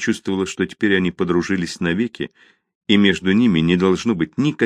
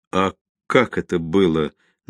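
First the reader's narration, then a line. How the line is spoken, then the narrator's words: Forced out, deeply embarrassed. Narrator (Russian): наконец выдавил он, покраснев до корней волос и до смерти смущенный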